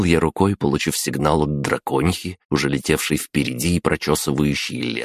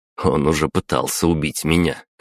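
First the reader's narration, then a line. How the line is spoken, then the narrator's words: Wry snort. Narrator (Russian): хмыкнул я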